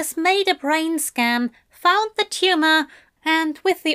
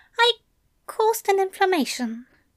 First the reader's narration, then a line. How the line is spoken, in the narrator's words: Aziraphale mumbled